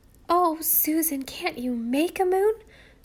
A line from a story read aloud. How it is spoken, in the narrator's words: cried Nan despairingly